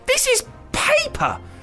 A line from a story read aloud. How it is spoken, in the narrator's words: spluttered Dizzy